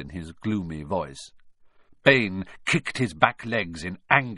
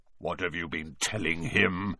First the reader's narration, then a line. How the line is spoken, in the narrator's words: growled Bane